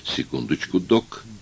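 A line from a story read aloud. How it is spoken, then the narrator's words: Muttering. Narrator (Russian): пробормотал Никвист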